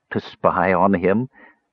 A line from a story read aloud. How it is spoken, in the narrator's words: Dalimar laughed bitterly